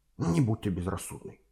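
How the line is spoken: Harsh whisper in ear. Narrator (Russian): жестко прошептал он ей прямо на ухо

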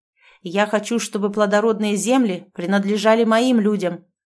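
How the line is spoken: Loud objection. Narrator (Russian): громко возразил князь

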